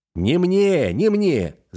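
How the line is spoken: Shouting over everyone. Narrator (Russian): закричал, стараясь всех переорать

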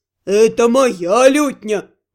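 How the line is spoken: Deep bass voice. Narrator (Russian): басил Наталь

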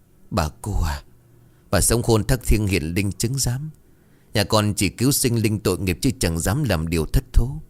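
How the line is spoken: Trembling mutter. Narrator (Vietnamese): Bà Thần vừa run rẩy vừa lẩm bẩm gấn

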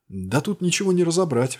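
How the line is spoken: Exasperated exclamation. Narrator (Russian): в сердцах воскликнул я

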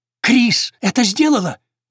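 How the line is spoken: Exclaiming. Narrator (Russian): воскликнул он

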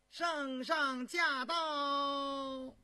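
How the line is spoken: Loud announcement. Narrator (Chinese): 高无庸高声道

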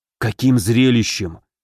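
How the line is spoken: Mouthed whisper. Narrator (Russian): одними губами прошептал Горчаков

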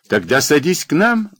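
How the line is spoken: Laughing carter. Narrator (Russian): засмеялся возчик

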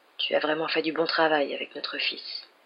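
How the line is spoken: Tender murmur. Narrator (French): murmura-t-il avec une infinie tendresse

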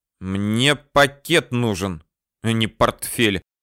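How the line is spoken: Irritated, curt. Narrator (Russian): раздраженно бросил я

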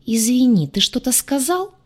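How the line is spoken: Offended near-hiss. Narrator (Russian): Почти зашипела, чувствуя, как краска обиды приливает к щекам

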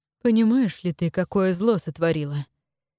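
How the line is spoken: Unexpectedly weary question. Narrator (Russian): Неожиданно устало спросил он ее

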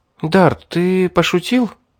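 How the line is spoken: Uncertain smiling girl. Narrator (Russian): неуверенно улыбнулась девушка

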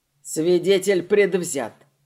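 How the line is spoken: Scoffing snort. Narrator (Russian): хмыкнул Алистер

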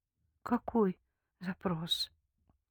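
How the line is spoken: Timid question. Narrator (Russian): робко спросила

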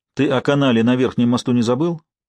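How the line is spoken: Overly sharp question. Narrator (Russian): излишне резко спросил Норман

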